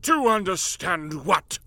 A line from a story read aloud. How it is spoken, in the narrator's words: Marley snapped